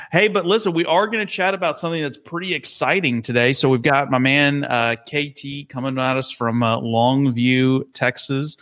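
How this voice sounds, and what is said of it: Southern Texas accent. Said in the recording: “when you're from Texas, it sounds like N ... it's still got the accent, bro. ... you guys are you're southern. Y'all, y'all, say”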